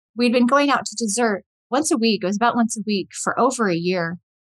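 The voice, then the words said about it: Emotional, choked-up voice. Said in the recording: “I'm already getting emotional.”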